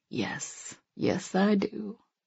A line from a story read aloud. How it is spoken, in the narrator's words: he bowed his mouth to my ear and breathed